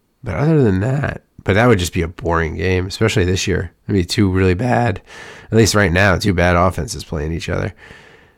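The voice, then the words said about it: Rough, worn-out voice. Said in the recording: “I'm shocked my voice is still here, y'all. It's rough right now. It's going to be. I might not have it tomorrow.”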